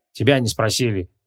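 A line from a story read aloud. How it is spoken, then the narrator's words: Dismissive snort. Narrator (Russian): хмыкнул Креол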